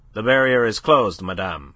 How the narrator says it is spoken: she was curtly informed

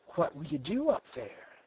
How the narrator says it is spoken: she whispered

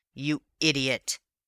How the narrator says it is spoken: he snarled

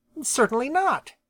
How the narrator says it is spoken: snapped Jenny

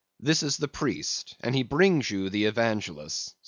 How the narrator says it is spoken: said Don Sebastian gravely

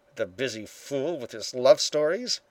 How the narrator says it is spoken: he muttered

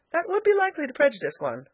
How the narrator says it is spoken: laughed Elnora

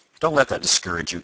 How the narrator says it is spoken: exclaimed Tom

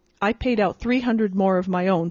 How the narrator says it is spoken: said Kelly

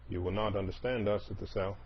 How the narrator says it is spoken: he said half impatiently, as if continuing with an argument

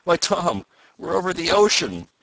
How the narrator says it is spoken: he cried

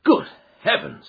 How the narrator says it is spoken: I cried

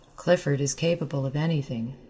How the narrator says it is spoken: said Rowden

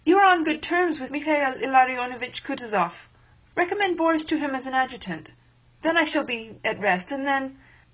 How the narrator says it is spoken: she faltered

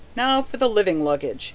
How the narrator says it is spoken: he said with a wink

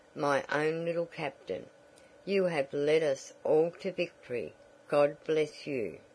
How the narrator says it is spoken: he murmured

